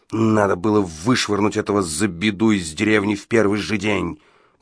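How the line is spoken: Growl. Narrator (Russian): прорычал Гадсон

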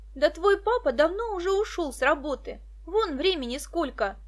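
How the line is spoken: Exclaiming. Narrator (Russian): воскликнула Даша

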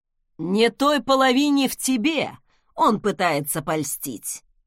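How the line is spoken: Scoffing snort. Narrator (Russian): хмыкнул Торстен

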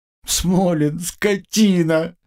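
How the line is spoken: Howling in unison. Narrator (Russian): дружно взвыли мои коллеги

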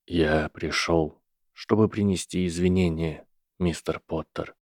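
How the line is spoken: Quiet professor. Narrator (Russian): тихо сказал профессор

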